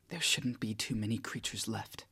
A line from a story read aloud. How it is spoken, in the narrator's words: a new, daring calculation that challenges me, whispering